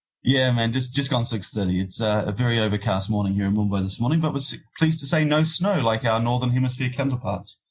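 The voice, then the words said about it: New Zealand accent. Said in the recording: “you don't have the typical Indian accent ... I'm from New Zealand”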